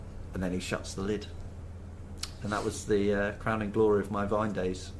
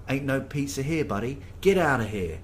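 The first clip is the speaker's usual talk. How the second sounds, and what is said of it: Strong New York accent. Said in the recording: “in a very strong New York accent”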